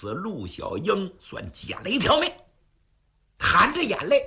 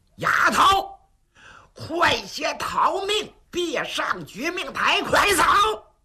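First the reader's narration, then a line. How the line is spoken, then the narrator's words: Shouting to crowd below. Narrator (Chinese): 陆景冲台下喊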